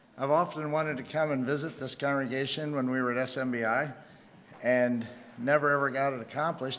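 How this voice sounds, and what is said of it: Hoarse voice from a cold. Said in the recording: “pardon my voice. I've been fighting a cold for the last couple of days... settle in my throat a little bit and my voice”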